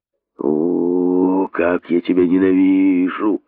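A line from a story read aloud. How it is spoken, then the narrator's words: Hissed. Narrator (Russian): прошипел пустынник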